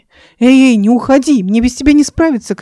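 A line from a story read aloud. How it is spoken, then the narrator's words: Shouting. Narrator (Russian): кричал Марат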